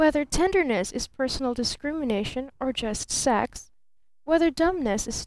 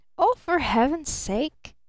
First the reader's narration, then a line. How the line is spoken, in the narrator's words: gasped Barton